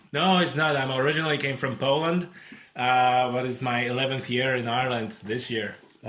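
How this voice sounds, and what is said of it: Non-Irish, Polish-accented English. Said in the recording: “it's not an Irish accent, is it”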